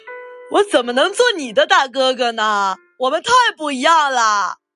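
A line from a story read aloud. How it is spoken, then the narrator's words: Bear's hearty laughter. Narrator (Chinese): 大白熊哈哈大笑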